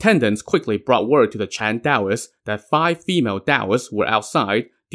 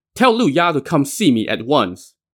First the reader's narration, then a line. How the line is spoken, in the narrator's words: High Firmament shouted